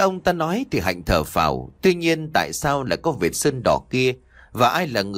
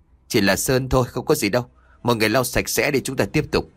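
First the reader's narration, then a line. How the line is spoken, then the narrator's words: Muttered. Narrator (Vietnamese): Ông đạo diễn lẩm bẩm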